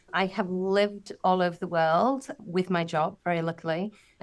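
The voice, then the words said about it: British accent. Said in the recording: “I'm British, as you can probably tell by my accent.”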